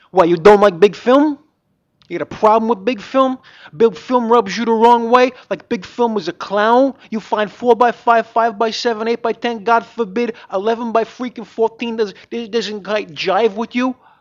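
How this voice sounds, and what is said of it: Put-on New Jersey accent. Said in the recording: “Say this in a Jersey accent.”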